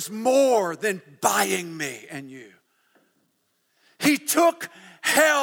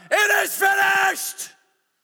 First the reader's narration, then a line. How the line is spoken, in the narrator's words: he would shout